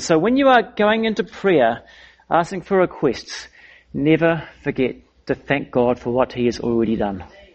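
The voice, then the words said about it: Foreign, non-American accent. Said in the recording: “You might pick by my foreign accent that I don't come from the US.”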